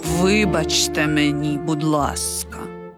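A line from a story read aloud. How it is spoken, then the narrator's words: Quiet. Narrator (Ukrainian): тихо звався Сальєрі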